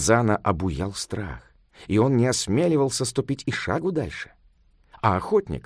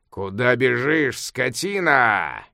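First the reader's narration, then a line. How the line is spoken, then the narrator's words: Thunderous shout. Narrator (Russian): громовым голосом закричал охотник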